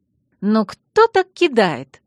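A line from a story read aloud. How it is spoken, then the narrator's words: Lively exclamation. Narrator (Russian): воскликнула Алекс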